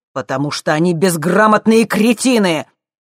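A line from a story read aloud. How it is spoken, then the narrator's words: Nearly shouting. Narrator (Russian): Джим почти кричал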